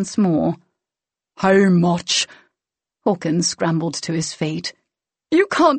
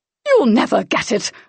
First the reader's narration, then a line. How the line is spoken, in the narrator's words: Hawkins spat, high-pitched and terrified, filled with false bravado